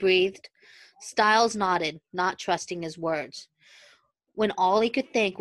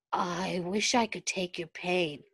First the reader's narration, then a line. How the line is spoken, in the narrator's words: he murmured distantly